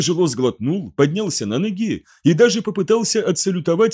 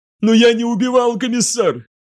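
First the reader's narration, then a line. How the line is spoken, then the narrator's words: Sobbing, then passionate. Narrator (Russian): Он всхлипнул, затем сделал тяжелый судорожный вдох и страстно заговорил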